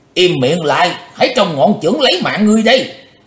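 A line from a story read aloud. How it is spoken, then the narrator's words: Loud angry shout. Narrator (Vietnamese): Quái khách lớn tiếng quát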